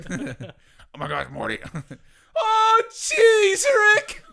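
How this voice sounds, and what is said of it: Imitates cartoon character voices. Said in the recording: “Rick and Morty?”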